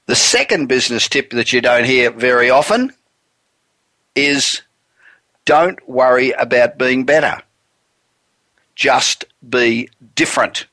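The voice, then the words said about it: Non-American English accent. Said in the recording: “I used to always get through gatekeepers in America because of my accent ... I remember that accent ... you had an advantage over the million other people that just sounded really American”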